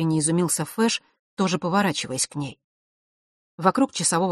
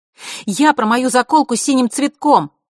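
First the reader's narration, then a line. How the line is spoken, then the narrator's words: Loud, caution abandoned. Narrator (Russian): громко сказала Василиса, разом потеряв всю осторожность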